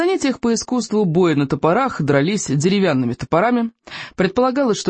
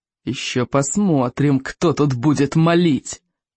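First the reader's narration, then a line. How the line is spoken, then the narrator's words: Growl through teeth. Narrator (Russian): прорычал Сморкала сквозь зубы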